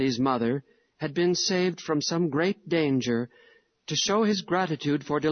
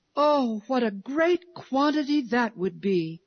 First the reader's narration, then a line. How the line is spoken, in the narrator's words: cried Lily